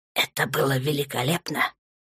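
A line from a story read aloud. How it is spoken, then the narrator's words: Soft speech. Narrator (Russian): сказал тихонько темный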